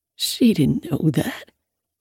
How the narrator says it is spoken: he croaks, and tears fill his eyes

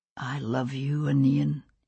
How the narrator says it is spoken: he said, very softly

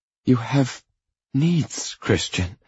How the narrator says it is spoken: she says, her voice softer, and I know she's trying to placate me

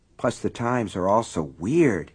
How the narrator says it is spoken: he muttered

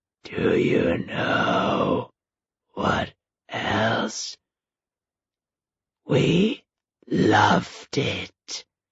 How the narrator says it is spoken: the corpse hissed, beginning to laugh, a wet, cackling laugh

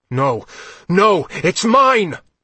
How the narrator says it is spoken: Blint yelled

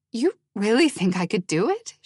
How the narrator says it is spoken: She said, her voice trembling

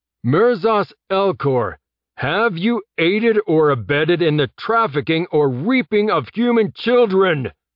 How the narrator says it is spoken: Jeb bellowed with every ounce of training and clarity he could muster

